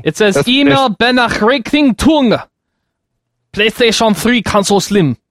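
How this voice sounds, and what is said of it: Mock Chinese accent sounding German. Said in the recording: “This is my Chinese/German accent that I do so well. ... Remember I tried to do the Chinese accent, everyone said it was German.”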